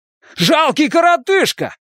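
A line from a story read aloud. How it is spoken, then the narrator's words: Shouting. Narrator (Russian): заорал он на Хейлса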